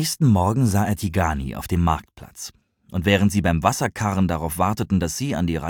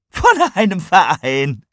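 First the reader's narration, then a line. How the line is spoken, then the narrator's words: Shouting with laughter. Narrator (German): Tigani schrie vor Lachen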